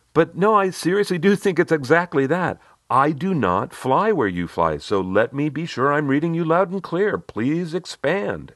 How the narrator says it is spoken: answered earnestly

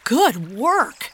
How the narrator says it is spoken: exclaimed Henry admiringly

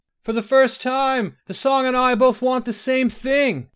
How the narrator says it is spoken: he yelled back

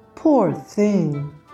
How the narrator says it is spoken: the good woman exclaimed

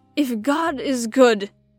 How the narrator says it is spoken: he cried

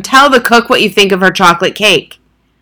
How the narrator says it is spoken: the Trunchbull boomed

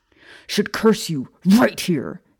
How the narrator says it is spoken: James bellowed, looking close to tears himself

